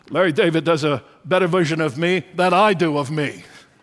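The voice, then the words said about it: Imitates another person's voice. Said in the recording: “That was my humble attempt to Bernie”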